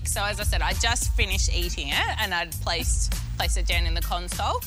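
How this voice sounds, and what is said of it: Australian accent. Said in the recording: “the Australian accent ... Australian accent”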